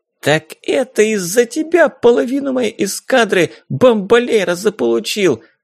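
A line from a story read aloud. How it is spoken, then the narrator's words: Shriek. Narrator (Russian): завизжала Дейзи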